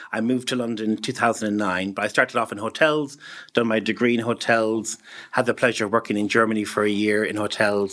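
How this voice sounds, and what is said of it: Irish accent. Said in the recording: “you can probably tell by the accent, I'm definitely from Ireland, from County Mayo in Ireland”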